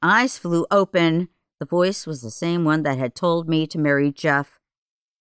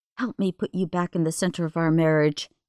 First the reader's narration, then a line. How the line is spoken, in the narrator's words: I whispered to God